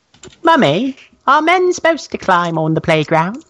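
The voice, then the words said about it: Child character voice with accent. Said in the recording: “Are you supposed to have that accent, Boston child?”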